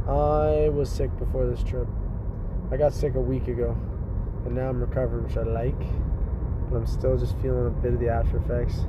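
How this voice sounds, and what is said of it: Raspy voice. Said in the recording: “My voice, though, is kind of raspy.”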